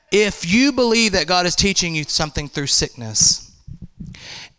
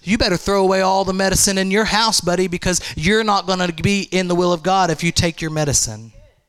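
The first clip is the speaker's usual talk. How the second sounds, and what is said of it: Sarcastic delivery. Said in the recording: “That was sarcasm.”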